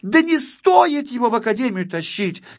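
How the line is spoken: Little girl shouting. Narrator (Russian): кричала малышка-модница

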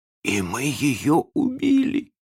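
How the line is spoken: Hoarse braggart. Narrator (Russian): сказал задавака хрипло

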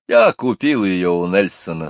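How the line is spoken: Plain. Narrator (Russian): сказал ей папа

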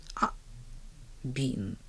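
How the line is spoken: Relieved mutter. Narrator (Russian): пробормотала миссис Кэррю с облегчением

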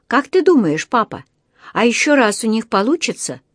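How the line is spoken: Excited question. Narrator (Russian): взволнованно спросила Джуди

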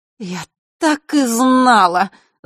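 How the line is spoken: Fairy groaning. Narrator (Russian): застонала светлая фея

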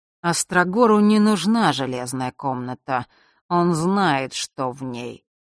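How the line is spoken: Drawn-out, musing. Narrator (Russian): протянул прадед, будто что-то припоминал

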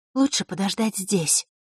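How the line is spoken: Whispered. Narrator (Russian): шепотом обратилась Василиса

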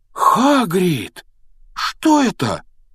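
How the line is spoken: Exclaiming. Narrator (Russian): воскликнул он

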